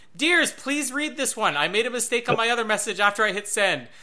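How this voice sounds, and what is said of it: Yelling. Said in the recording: “this is all in caps, that's why I'm yelling it.”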